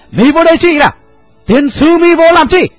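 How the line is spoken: Old man shouting curses. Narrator (Vietnamese): Cụ lớn, thét lớn chửi rủa

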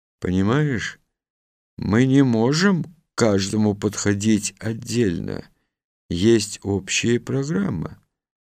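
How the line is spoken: Quiet speech. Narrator (Russian): тихо сказал

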